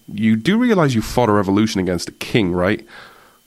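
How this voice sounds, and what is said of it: Sarcastic tone. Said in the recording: “I mean this in a sarcastic tone, by the way, this is not serious ... I'm being sarcastic”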